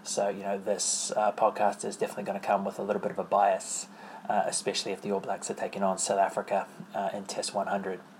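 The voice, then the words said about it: New Zealand accent. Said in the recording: “as you know from my accent ... I'm obviously a New Zealand rugby supporter”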